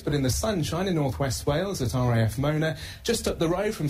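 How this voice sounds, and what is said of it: Welsh accent. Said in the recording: “you can hear the Welsh accent there”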